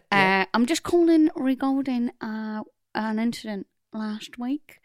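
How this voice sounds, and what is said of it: Put-on accent. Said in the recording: “Right, this accent.”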